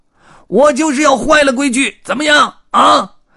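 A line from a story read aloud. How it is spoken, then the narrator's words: Roaring. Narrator (Chinese): 灰胡子也咆哮道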